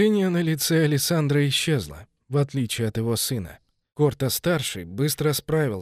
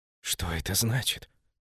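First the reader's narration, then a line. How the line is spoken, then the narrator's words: Whispered, young man. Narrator (Russian): прошептал юноша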